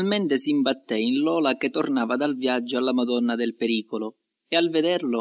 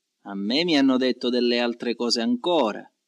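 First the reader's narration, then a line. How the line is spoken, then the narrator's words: Plain. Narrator (Italian): rispose lui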